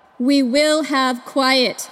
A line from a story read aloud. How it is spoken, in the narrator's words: comes a booming voice